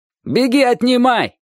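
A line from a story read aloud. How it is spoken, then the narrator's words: Shouted. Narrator (Russian): крикнул охотник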